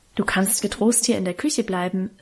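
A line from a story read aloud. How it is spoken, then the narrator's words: Plain. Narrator (German): sagte die Frau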